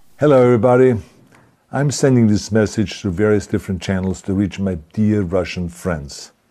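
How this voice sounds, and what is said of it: English with Austrian accent. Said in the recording (German): “er spricht von War mit seinem österreichischen Akzent”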